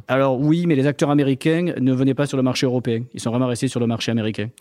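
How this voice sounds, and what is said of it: Southern French accent. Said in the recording (French): “On entend à ton accent que, que, que tu viennes du Sud”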